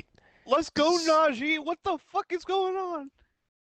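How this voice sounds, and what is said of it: Yelling excitedly. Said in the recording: “sorry for yelling”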